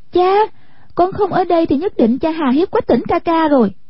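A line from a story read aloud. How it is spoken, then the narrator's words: Excited cry. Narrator (Vietnamese): Hoa Tranh nhảy bật dậy, kêu lên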